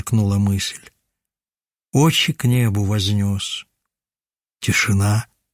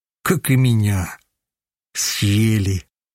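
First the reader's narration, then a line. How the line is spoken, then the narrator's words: Heavy sigh, shuddering. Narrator (Russian): Вздохнул тяжело и вздрогнул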